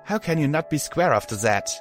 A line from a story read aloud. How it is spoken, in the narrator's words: I sighed